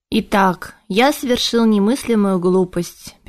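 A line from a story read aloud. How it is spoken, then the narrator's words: Sad summing up. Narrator (Russian): печально подвел итог Шилар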